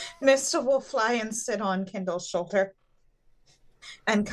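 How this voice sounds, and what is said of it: Usual voice. Nothing is said of it.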